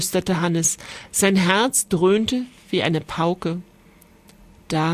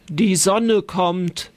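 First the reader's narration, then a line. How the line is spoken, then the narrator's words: Dragon calling back. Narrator (German): rief der Drache zurück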